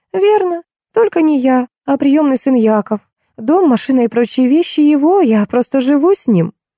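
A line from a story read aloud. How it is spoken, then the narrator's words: Calm answer. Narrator (Russian): Женщина спокойно отвечала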